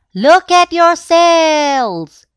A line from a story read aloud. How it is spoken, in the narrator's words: shouted the people